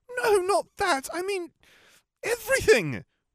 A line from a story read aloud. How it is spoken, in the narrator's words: exclaimed